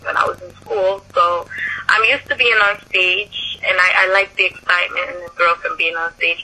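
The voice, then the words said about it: Jamaican accent. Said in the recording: “do I hear a little bit of an accent in your voice? Do you have a little bit of an accent? ... I'm from Jamaica ... I still have the accent”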